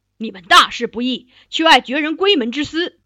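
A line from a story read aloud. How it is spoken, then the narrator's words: Angry rebuke. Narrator (Chinese): 皇帝赵顼 当面怒斥蒋之奇，说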